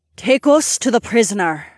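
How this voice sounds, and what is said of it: Deep, commanding hypnotic voice. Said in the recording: “in her hypnotic voice ... in a voice that had somehow gotten even deeper”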